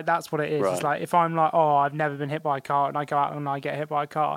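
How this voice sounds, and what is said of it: Usual voice. Nothing is said of it.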